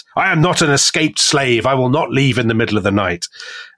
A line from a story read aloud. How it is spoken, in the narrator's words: the emperor is very cross, and he shouts at them and he says